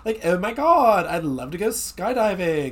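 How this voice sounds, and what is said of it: Imitated Valley Girl accent. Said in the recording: “she's doing a Valley Girl uh, accent”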